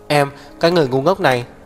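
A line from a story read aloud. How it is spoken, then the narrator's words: Breathless, panting. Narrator (Vietnamese): Hắc Viêm Triệt thở hổn hển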